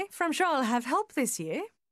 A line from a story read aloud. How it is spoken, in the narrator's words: she added, her voice light and gay